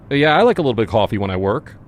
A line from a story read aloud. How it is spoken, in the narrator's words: I blurted